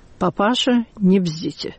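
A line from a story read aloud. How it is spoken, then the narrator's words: Quiet, pointedly restrained. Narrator (Russian): он только сказал тихо и подчеркнуто сдержанно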